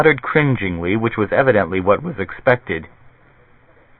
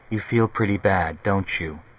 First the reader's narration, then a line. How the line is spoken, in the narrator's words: She said softly